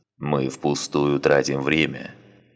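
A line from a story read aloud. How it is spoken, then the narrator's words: Grumbling. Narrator (Russian): проворчал Санак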